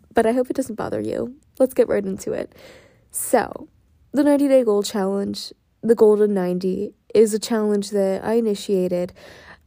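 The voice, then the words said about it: Strange, worn-out voice. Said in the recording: “my voice is a little bit strange. I did a lot of talking today, and my voice just kind of has left me this evening.”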